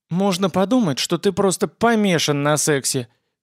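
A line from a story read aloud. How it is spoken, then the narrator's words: Snide girlish voice. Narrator (Russian): ехидным голоском заметила девица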